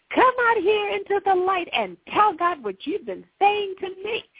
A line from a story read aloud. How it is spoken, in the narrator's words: I yelled